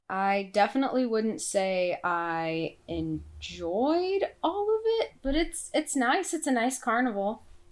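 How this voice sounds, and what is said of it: Sick, hard-to-control voice. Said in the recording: “I'm sorry, I'm sick. My voice is really hard to, like, get under control.”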